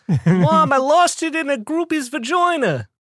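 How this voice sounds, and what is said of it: Failed attempt at New Jersey accent. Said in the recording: “That's not a New Jersey accent. I don't know where that came from.”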